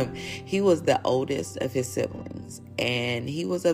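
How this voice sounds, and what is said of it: Usual voice. Nothing is said of it.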